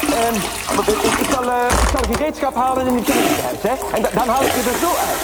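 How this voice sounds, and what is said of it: Flemish accent. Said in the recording (Dutch): “een Vlaams accent”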